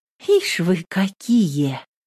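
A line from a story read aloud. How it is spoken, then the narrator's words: Affectionate. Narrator (Russian): ласково сказала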